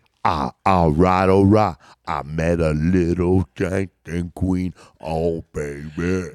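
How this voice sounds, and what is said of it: Imitates another person's voice. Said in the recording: “impersonating Mick Jagger”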